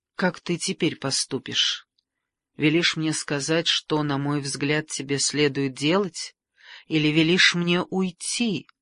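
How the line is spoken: Light, careless tone. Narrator (Russian): Легким тоном прервал он молчание, словно его не заботило, что она выберет

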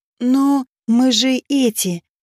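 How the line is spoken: Timid stunned hiss, small one. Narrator (Russian): робко прошипел мелкий, видимо, ошарашенный такой реакцией

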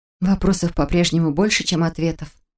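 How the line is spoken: Sighing. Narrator (Russian): вздохнула я

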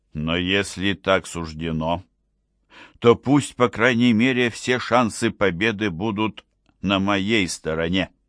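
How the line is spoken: Firm voice. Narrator (Russian): сказал император твердым голосом

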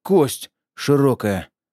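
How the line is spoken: Exhaled. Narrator (Russian): выдохнул Кутепов

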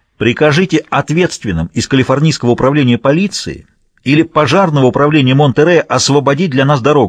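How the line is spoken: Barking. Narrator (Russian): рявкнул О'Нил

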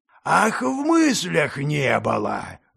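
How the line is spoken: Roaring man. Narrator (Russian): взревел монгол

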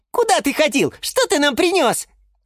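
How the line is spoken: Squeaky children. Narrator (Russian): запищали малыши рассада

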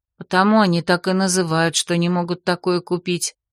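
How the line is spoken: Soft sigh. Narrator (Russian): тихонько вздохнула Доринея

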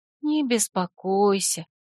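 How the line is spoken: Quiet. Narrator (Russian): тихо произнесла она

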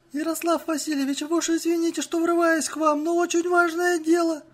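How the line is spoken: Timid babble. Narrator (Russian): пролепетала она

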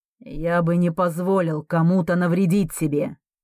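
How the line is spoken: Menacing man. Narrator (Russian): грозно утверждает мужчина

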